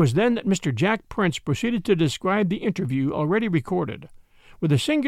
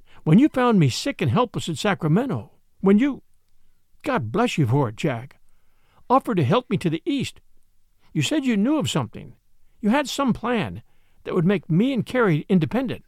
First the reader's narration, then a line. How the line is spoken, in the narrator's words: she said eagerly